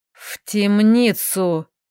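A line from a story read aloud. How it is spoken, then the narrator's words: Haughty hiss. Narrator (Russian): прошипел надменный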